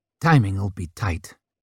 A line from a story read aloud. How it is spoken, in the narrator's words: she murmured